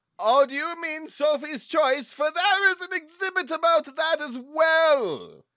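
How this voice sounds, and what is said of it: Over-the-top, overplayed theatrical voice. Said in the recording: “your voice sounds really over the top. A little bit overplayed”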